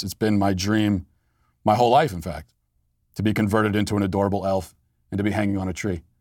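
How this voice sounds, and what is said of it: Sarcastic delivery. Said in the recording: “I'm joking. I'm being sarcastic”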